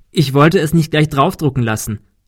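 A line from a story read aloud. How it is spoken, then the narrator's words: Laughing. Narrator (German): lachte Kim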